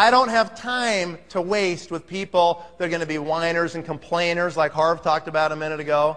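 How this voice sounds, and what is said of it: Usual voice. Nothing is said of it.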